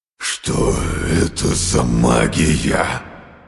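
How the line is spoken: Roared, dark god. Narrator (Russian): проревел темный бог

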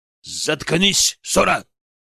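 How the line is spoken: Barked. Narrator (Russian): рявкнул Дэйчи

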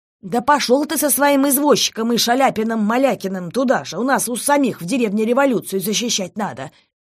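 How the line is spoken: Shouting. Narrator (Russian): крикнула Екатерина Степановна

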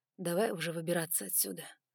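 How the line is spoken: Hoarse mutter. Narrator (Russian): хрипло пробормотал он

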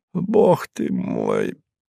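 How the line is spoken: Muttered. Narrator (Russian): пробормотал он

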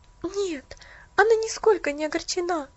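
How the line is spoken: Excited interruption. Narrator (Russian): Взволнованно перебила ее Поллианна

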